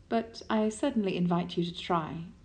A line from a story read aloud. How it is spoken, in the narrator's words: says calmly